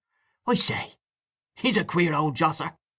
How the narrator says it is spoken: Mahony exclaimed again

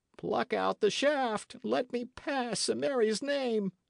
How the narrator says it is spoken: gasped Appleyard

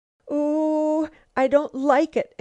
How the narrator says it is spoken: exclaimed Lucile, as she leaped a narrow chasm of dark water

